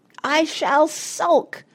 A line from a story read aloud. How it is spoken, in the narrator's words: screamed Dulcibel, starting to sob